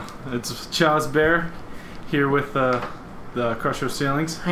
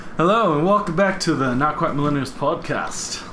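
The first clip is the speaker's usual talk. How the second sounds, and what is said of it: Put-on accent. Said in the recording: “I don't know why I went to do a accent like that.”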